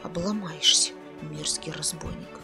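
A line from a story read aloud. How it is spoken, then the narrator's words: Muttered under breath. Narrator (Russian): буркнул себе под нос Кир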